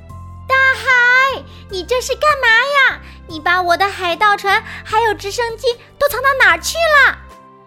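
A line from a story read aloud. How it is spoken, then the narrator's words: Loud shout. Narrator (Chinese): 山姆大叫起来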